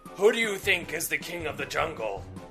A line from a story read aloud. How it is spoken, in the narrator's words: The lion roared